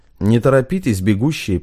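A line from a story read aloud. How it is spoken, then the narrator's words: Matter-of-fact yet chilling. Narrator (Russian): произнес Федор Иванович обыденным тоном, но так, что у Матвея свело скулы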